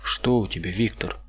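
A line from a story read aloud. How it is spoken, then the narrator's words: Plain. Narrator (Russian): спросил Мюррей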